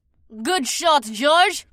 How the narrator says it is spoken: Mira cackled

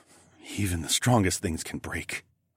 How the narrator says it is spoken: I whispered

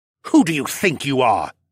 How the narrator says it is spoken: he hissed

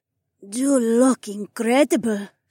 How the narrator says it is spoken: Sky breathed

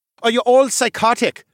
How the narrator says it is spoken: Alexei cried out as he tried to shuffle away from us

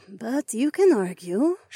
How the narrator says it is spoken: she sighed

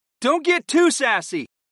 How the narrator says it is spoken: I cried out to my summons

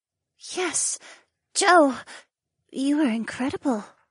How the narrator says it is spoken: murmured, and her aqua eyes were wide with awe

